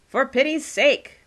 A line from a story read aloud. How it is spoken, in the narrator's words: shouted a familiar voice